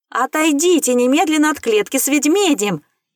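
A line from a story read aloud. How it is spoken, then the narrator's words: Frantic scream from behind. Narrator (Russian): Истошно кто-то закричал позади меня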